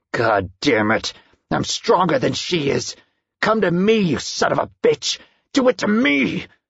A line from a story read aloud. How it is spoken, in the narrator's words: growled furiously